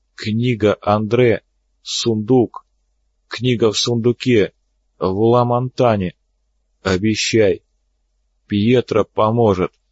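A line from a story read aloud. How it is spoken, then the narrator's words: Dying rasp. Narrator (Russian): Перед кончиной хирург прохрипел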